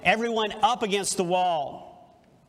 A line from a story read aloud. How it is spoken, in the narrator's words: One of the soldiers shouted